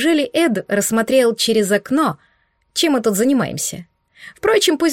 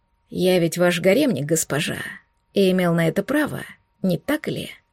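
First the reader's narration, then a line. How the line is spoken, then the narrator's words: Quiet and hoarse. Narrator (Russian): Тихо и хрипло произнес он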